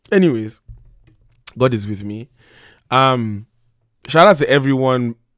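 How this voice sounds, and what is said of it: Strained, nearly lost voice. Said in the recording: “my voice is gone”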